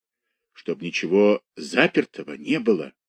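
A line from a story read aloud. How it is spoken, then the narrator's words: Whisper. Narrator (Russian): шептала Варвара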